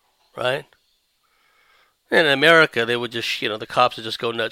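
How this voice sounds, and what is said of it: Usual voice. Nothing is said of it.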